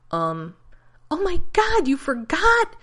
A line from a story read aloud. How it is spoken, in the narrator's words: Rodney shrieked, giving in to hysteria